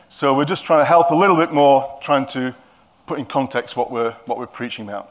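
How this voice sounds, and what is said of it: Yorkshire accent. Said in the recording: “Because I'm a Yorkshireman, they probably don't understand my accent. And because you're Cumbrians, you certainly don't understand my accent.”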